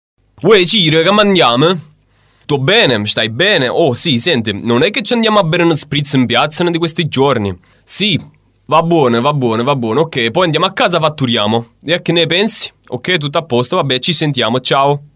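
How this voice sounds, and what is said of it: Put-on Neapolitan Italian accent. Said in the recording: “the same speech made in the South, okay? I'm going to do that in Naples.”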